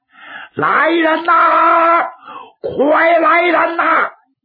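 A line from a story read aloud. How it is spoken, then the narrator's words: Shouting. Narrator (Chinese): 长兴他就喊开了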